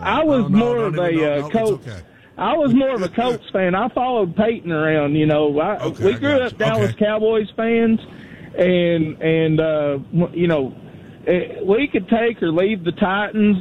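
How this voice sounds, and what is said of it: Distinctive regional accent. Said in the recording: “I love your accent, by the way. I could literally listen to you all night long ... what an accent that guy's got”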